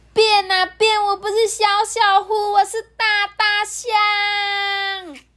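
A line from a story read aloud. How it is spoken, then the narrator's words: Loud chanting. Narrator (Chinese): 马上大声的念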